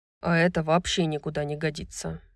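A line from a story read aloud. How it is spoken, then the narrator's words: Grumbling. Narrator (Russian): проворчал Хант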